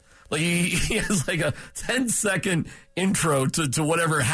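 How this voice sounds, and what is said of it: Usual voice. Nothing is said of it.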